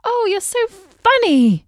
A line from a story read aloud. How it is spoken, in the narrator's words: exclaimed